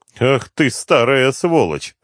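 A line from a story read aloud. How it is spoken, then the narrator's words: Laughing. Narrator (Russian): рассмеялся Слепнев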